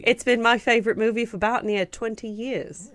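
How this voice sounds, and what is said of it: Put-on vague British accent, Texan twang. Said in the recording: “I don't know how to reconcile a Texan twang with a British accent ... I didn't even settle on an accent. I was just like, vaguely UK.”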